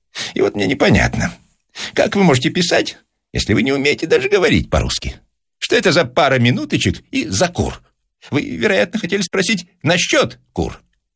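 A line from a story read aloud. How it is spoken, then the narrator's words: Respectful laughter. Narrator (Russian): Бронский почтительно рассмеялся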